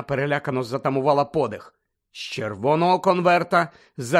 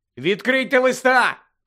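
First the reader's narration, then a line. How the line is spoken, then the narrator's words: Shouted. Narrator (Ukrainian): крикнув їм Гаррі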